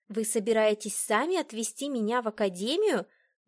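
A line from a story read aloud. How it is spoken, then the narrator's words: Incredulous exclamation. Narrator (Russian): воскликнула я, не веря своим ушам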